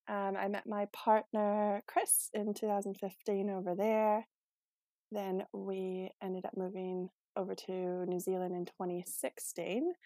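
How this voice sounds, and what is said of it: Canadian accent, not New Zealand. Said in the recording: “I don't have a Kiwi accent. I'm originally from Canada”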